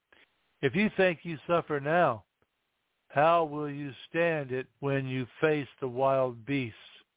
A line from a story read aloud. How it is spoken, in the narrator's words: Felicity responded back to them calmly